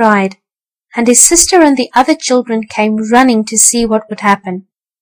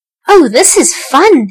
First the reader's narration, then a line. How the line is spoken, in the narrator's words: he cried